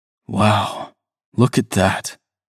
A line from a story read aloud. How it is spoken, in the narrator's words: I said, my voice full of awe